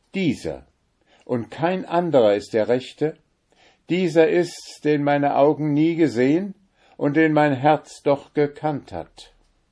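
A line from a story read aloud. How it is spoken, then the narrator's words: Called out. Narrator (German): rief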